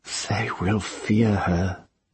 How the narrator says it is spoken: Tenar whispered

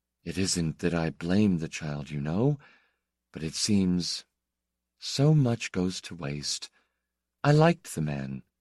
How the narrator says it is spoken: she said, in her mild voice, which no longer had much lilt or lift in it

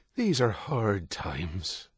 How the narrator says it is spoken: Father Michael sighed

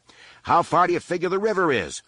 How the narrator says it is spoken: Han shouted

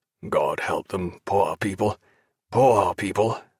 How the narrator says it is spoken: muttered Jack

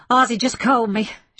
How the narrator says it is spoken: she blurted

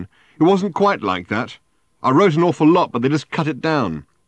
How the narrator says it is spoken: said Ford, having to shout now above the din

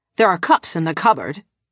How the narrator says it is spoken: Pasval said sharply

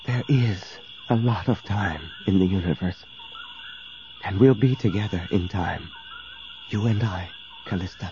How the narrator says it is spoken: he whispered

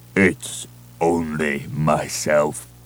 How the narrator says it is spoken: a blubbering voice rumbled

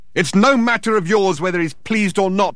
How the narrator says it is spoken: shouted Thor, disturbing the foundations of the building once more

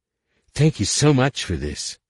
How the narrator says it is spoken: she exclaimed

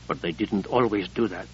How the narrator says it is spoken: he whispered to Sable

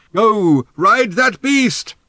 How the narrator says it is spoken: shouted Thrashbarg

